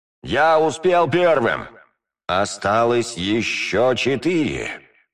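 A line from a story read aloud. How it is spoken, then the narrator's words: Sepulchral voice. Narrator (Russian): могильным голосом проговорил я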